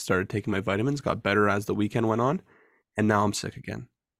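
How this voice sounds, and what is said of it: Voice affected by a head cold. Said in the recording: “apologize for my voice again. I'm still battling this cold... Just a head cold”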